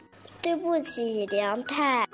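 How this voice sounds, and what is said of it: Quiet, soft-spoken line. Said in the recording (Chinese): “光太小声说”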